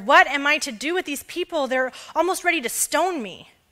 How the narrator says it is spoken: Moses cried out to the Lord

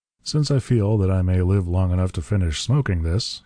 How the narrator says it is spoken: observed dryly

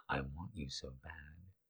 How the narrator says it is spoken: he said as he softly whispered in her ear

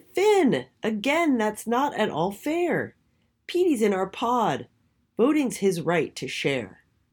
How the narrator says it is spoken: Mimi shouted

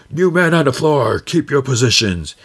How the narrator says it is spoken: Kino yells

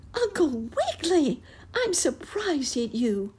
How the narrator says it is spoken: squeaked the mouse

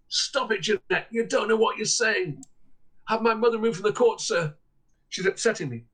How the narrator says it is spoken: Her mother was in court, and she shouted

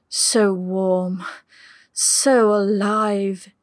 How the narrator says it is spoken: moaned

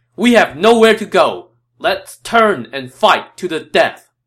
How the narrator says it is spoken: Cao Cao's troops had nowhere to run, and Cao Cao shouted

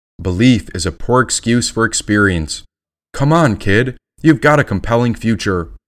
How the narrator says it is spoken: chuckled, the robin

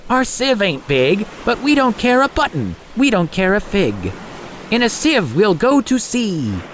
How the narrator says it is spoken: They cried aloud

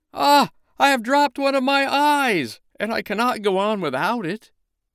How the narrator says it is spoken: the snowman cried out

